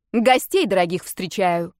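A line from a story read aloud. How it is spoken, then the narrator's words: Barked. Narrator (Russian): рявкнула я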